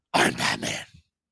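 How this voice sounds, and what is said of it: Batman character voice impression. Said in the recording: “That was too good of an impression.”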